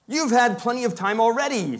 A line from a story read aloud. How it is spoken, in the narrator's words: said the Tin Woodman angrily